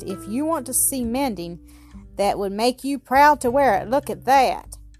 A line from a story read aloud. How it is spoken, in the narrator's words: he exclaimed at last